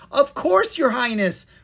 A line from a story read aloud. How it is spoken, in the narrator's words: Miranda cried